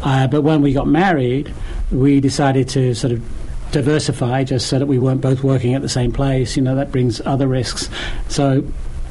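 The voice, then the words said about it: British accent. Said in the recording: “you're clearly not from Boston ... Not the Boston accent ... Originally from the U.K.”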